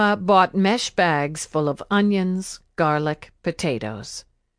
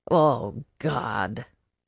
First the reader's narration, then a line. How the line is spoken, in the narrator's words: Tia Irma grumbled